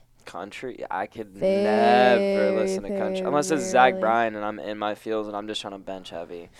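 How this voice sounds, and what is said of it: Hoarse, strained voice. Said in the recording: “Oh my god, my voice! ... I lost my voice screaming at Turnpike.”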